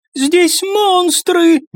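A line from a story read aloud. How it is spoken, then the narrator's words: Squeal. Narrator (Russian): взвизгнул еще кто-то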